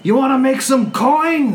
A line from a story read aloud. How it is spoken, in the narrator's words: The shield dwarf, as he's running, yells over